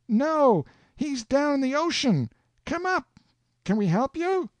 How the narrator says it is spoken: I shouts

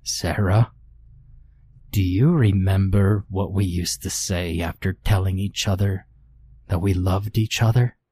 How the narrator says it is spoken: he asked me in that eerie, choked voice

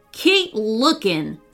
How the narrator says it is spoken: snapped Wayne to Queenie

